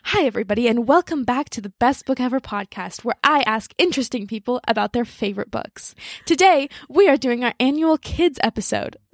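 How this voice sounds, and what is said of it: Imitates a podcast host voice. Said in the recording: “you use your podcast voice when you're angry ... That is shockingly good.”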